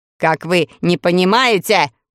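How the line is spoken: Shouting over noise. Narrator (Russian): тоже прокричал Каурук, поскольку шум вокруг стоял невообразимый

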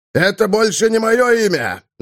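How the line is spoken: Yelling. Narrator (Russian): завопил Клыгрызуб

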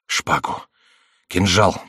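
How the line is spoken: Whisper. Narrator (Russian): прошептал Ламоль

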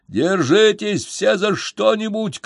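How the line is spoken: Shout. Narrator (Russian): крикнул Феликс

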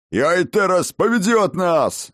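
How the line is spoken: Barking dwarf. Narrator (Russian): рявкнул один из гномов

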